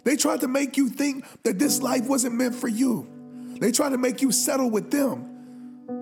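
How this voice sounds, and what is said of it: Raspy, strained voice. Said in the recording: “I'm losing my voice right now. My voice is a little raspy right now”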